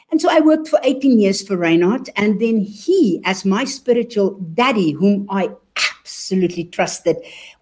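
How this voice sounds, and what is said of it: South African-German accent. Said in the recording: “you can hear from my accent. I am actually a born South African, but I am German.”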